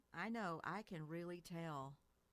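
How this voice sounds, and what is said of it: Texan-sounding accent. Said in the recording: “That just sounded so Texan.”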